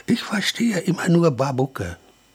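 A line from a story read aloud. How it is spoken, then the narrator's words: Quiet. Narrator (German): sprach Klemperer leise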